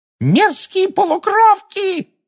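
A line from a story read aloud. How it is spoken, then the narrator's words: Screaming. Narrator (Russian): завопила Амбридж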